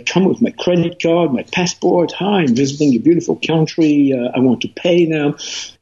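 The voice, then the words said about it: French American accent in English. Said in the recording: “my French American accent in English”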